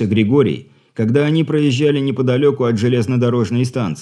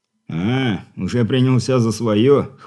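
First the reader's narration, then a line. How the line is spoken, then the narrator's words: Smirking snort. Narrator (Russian): хмыкнул капитан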